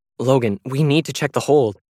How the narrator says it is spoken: Allison directed urgently

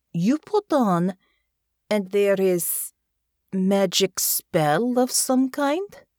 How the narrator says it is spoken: she said slowly

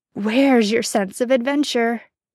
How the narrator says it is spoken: he chuckles

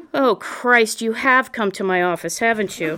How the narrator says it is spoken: He snarled and huffed out a laugh at the same time

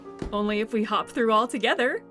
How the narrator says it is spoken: replied Nona with a laugh

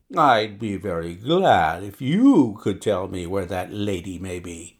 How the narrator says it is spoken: Peters answered coolly

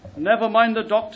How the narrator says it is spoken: the young man cried out

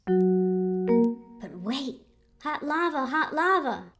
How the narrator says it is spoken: yells Soso

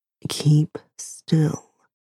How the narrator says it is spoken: Dean murmurs

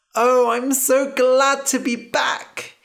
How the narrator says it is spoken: he said, laughing

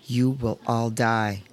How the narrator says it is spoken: said Grandmère, her voice flat

